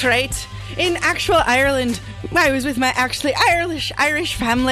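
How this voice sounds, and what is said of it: Usual voice. Nothing is said of it.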